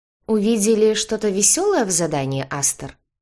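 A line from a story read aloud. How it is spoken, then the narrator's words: Plain. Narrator (Russian): спросил Луис Дране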